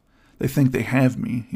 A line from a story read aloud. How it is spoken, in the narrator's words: muttered